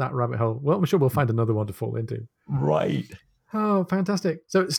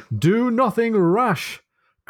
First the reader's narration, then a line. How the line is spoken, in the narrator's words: cried Aubrey